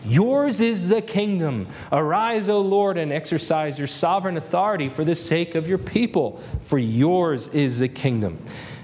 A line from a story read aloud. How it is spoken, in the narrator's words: Jehoshaphat pleading with God